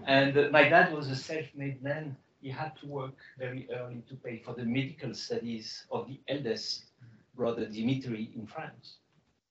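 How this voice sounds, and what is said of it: Foreign-accented English. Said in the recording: “You can hear my accent.”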